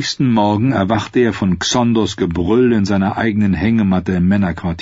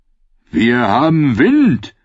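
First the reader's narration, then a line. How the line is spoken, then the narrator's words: Sailor calling out. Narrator (German): rief der Maat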